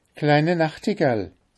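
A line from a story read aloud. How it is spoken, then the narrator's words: Little cook, very loud. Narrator (German): rief die kleine Köchin ganz laut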